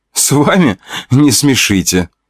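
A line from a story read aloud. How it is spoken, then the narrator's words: Laughing. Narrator (Russian): Смеялась Евгения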